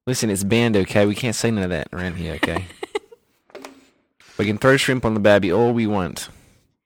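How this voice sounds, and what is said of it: Put-on Australian accent, slipping British. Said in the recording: “I'm really losing the Australian accent here. It's kind of getting away from me. It's going to become British accent”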